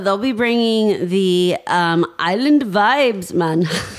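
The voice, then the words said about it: Bad put-on Jamaican accent. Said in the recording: “That was my horrible Jamaican accent.”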